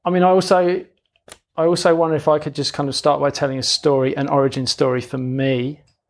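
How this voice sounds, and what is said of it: London English accent. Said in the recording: “I grew up in London, which is why I've got a funny accent.”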